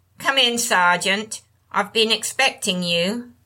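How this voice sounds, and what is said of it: Broad northern English accent. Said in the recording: “the woman's voice was unmistakably English, with a broad northern accent.”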